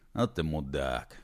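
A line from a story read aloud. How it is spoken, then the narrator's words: Unsmiling grumble. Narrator (Russian): без улыбки проворчал Колдей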